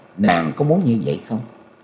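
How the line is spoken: Gentle question. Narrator (Vietnamese): Nhậm Xương Bạch dịu dàng hỏi lại

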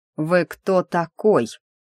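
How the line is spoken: Menacing repetition. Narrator (Russian): вновь грозно повторил сэр

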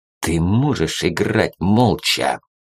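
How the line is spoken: Menacing angry hiss. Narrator (Russian): угрожающе прошипел полковник, красный, как вареный омар

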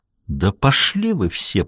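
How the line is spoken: Through gritted teeth. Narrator (Russian): процедил сквозь зубы Даффи

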